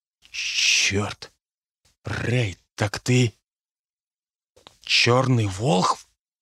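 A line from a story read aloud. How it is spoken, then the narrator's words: Quiet speech. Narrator (Russian): сказал негромко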